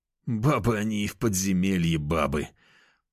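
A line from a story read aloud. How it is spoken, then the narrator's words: Moaning. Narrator (Russian): простонал я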